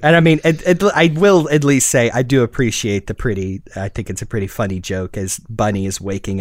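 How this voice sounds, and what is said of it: Usual voice. Nothing is said of it.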